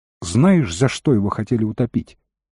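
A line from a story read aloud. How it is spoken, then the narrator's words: Plain. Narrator (Russian): спросил Тилорн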